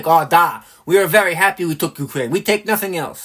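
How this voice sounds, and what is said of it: Mock Russian accent. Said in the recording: “I don't know what accent that is, but I hope it's Russian.”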